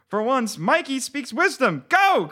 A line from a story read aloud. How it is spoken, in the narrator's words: cried a girl